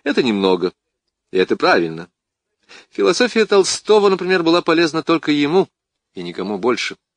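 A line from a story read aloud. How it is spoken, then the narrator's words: Laughing. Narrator (Russian): Рассмеявшись, ученый сказал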